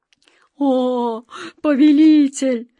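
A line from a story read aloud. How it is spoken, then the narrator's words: Pleading moan. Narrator (Russian): с мольбой простонал Джин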